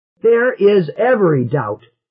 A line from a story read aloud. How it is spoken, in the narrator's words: shouted